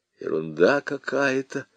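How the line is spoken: Muttered. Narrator (Russian): пробормотал он

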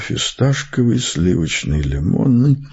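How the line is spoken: Muttered. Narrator (Russian): я бормочу

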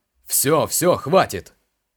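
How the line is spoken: Innkeeper's bark. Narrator (Russian): рявкнул трактирщик

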